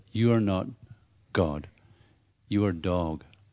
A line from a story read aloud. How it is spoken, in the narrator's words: Prabhupada quietly said